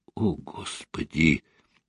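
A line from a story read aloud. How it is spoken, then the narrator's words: Quiet, shaken. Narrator (Russian): Тихо проговорил Константин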